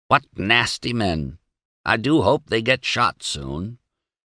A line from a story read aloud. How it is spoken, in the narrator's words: Candy stopped drying the water glasses long enough to croak